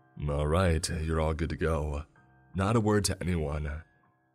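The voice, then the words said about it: Very serious voice. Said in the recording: “in a very serious voice.”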